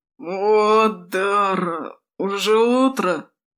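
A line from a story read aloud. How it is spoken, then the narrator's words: Groaned. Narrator (Russian): простонал Крэд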